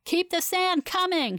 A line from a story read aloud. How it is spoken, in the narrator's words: she shouts